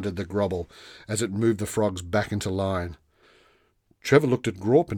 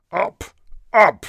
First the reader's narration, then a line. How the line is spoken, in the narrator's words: snapped the fearsome creature